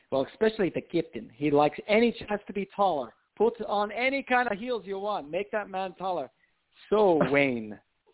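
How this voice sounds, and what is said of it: Put-on foreign accent, V/W swap. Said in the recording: “Sorry for my accent. I was saying Vane ... you've really been working on that over the last few years ... I'm doing my V and W exercises”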